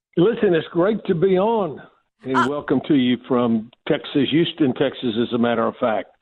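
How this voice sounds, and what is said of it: Southern US accent. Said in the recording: “I am so excited to hear a Southern accent”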